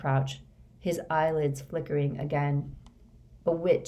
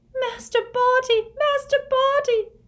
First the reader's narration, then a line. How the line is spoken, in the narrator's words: sobbed Winky through her hands